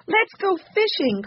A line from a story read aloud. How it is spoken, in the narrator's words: cried Benny